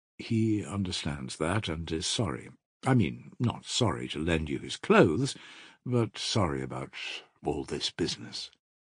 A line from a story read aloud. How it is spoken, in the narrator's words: mumbled Nikolai Parfenovitch